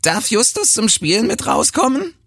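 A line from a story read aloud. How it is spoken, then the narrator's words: Squeaky falsetto singsong. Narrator (German): trällert Ilkan mit piepsiger Fistelstimme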